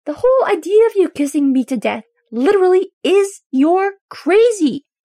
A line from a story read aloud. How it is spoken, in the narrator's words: Derek yells back